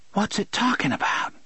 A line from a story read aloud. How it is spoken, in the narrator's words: she hissed